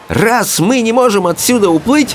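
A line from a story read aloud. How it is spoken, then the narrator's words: Exclamation. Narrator (Russian): воскликнула она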